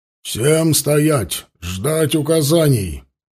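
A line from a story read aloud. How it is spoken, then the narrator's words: Booming smoky megaphone voice. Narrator (Russian): прогремел рупор прокуренным голосом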